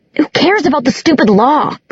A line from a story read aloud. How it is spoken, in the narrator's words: Clary screamed